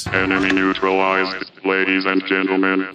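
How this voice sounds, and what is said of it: Robot voice. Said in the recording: “Here's a cool robot voice.”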